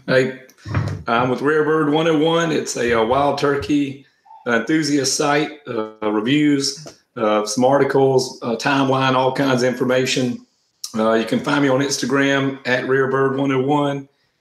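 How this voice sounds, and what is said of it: Congested voice from a cold. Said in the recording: “apologize for my voice. I have a cold,”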